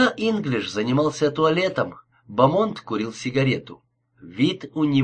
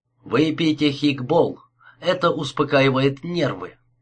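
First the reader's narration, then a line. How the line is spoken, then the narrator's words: Gentle advice. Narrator (Russian): мягко посоветовал он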